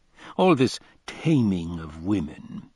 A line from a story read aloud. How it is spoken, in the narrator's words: he scoffed